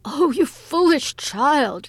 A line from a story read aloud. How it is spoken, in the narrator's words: cried in alarm